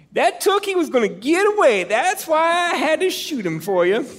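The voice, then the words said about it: Imitates another person's voice. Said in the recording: “doing his voice ... Scotty's from Maine”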